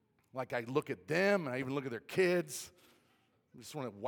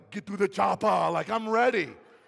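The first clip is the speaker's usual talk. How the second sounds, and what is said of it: Arnold Schwarzenegger accent impression. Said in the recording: “I get Arnold Schwarzenegger's, like, accent just takes over.”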